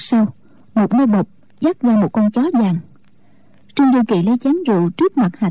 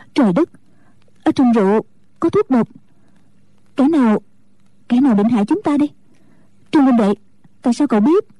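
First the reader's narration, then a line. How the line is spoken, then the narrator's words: Frightened, trembling. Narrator (Vietnamese): Ngũ cô sợ hãi run cả người nói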